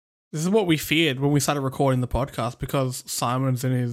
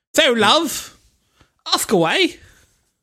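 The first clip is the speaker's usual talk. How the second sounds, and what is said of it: Over-the-top English accent. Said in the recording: “in an overtop English accent”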